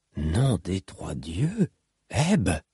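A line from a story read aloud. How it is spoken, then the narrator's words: Woman murmuring. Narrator (French): murmura la femme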